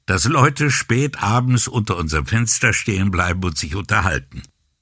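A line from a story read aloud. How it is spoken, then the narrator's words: Laughing speech. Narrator (German): sagte Brunetti lachend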